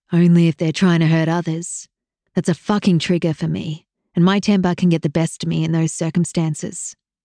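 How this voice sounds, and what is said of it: Thickening accent, frustrated male voice. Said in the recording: “His accent thickened, revealing his growing frustration with each word.”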